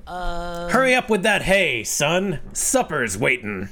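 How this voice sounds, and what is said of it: John's dad character voice. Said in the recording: “I think that's my John's dad's voice. ... I don't know what accent that is.”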